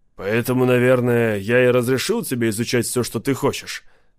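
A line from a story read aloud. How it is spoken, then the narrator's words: Plain. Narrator (Russian): спросил Лок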